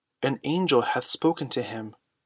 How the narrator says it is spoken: Others, awe-stricken, whispered

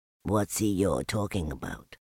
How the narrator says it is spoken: Piglet whispered to Pooh

